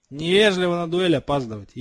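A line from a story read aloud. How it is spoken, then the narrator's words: Snide smirking. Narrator (Russian): ехидно усмехнулся Малфой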